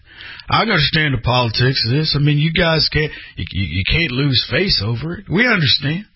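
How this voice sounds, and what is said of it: Rex Tillerson impression, country accent. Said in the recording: “I can hear him with his country accent.”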